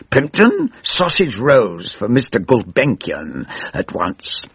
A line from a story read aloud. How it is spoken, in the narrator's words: snarled